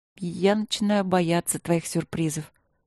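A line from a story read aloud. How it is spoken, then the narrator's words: Muttered. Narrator (Russian): пробормотала я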